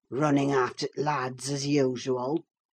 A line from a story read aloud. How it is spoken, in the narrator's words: croaked Joseph